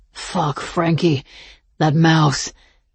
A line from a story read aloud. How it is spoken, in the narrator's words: he moaned